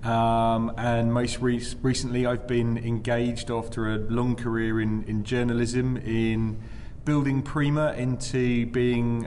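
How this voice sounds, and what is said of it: British accent. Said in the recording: “across the Atlantic as well, as those listening can tell ... A little bit of accent”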